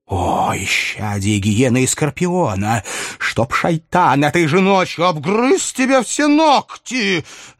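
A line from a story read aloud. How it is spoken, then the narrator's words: Woman hissing angrily. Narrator (Russian): Злобно зашипела женщина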